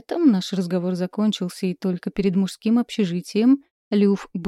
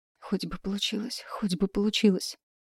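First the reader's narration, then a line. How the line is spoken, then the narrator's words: Whispered under breath. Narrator (Russian): шептала себе под нос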